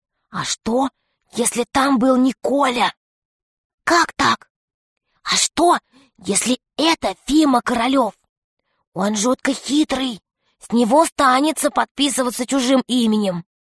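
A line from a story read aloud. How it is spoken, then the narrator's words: Whisper. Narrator (Russian): Юлька прошептала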